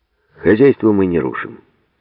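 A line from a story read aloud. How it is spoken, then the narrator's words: Calm. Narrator (Russian): спокойно сказал Гладких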